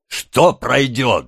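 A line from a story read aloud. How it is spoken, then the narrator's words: Angry question. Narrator (Russian): злобно спросил мистер Сайкс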